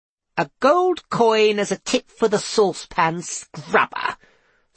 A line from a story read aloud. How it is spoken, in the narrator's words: scoffed Tiffany